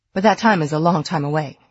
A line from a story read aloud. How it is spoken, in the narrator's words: he added hastily